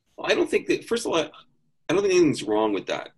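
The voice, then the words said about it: Generic American accent. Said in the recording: “I have a very generic American accent”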